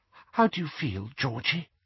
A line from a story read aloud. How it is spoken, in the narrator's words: whispered Mrs